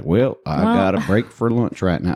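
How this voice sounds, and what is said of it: Put-on American Southern accent. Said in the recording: “I did a Southern accent”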